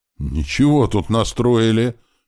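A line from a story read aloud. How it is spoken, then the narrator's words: Exclaiming. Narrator (Russian): воскликнула Оксана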